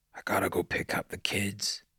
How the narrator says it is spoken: he whispered

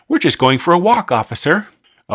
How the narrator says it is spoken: said brightly

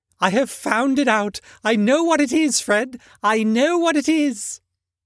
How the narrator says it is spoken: the plump sister, falling into a similar state, cried out

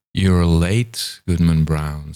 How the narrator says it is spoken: said he

